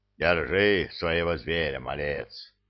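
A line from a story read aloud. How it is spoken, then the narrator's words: Good-natured rumble. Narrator (Russian): Добродушно прогудел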